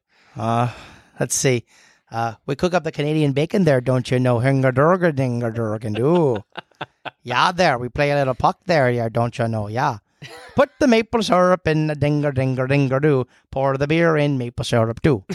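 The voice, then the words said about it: Canadian chef impression. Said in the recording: “impression of Canadian Chef?”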